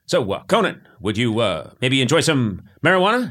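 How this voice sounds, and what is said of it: Clipped imitation of a politician. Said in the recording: “Your Obama impression... That's good. It's better... He's very clipped”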